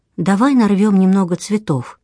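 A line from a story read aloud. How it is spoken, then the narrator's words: Trembling voice. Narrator (Russian): Линда предлагает дрожащим голосом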